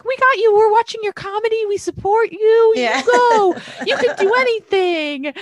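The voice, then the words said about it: Put-on American mom voice. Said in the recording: “I love your American mom voice.”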